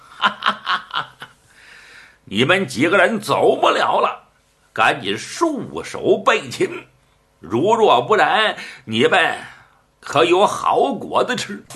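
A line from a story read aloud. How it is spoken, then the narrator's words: Loud laughing, group. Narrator (Chinese): 这些个和尚哈哈大笑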